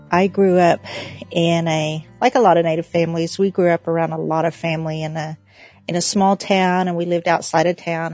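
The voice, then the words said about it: Oklahoma accent. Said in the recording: “I am from Oklahoma, just in case you couldn't tell by my accent.”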